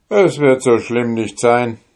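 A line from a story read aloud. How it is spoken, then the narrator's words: Plain. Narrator (German): antwortete der Soldat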